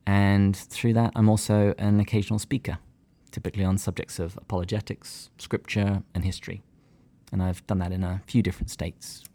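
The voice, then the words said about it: English accent. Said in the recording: “my accent doesn't get me booked wherever in England”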